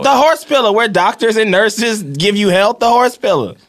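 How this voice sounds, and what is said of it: Tennessee accent. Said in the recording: “With this accent, where are you from? ... I am from Tennessee.”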